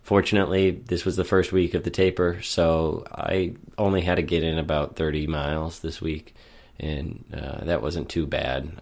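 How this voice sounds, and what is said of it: Sick, slightly off voice. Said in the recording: “I've been sick for over a week and a half now, which will be very evident in today's recording ... losing my voice ... my voice is a little bit different ... still a little bit off ... sinus condition”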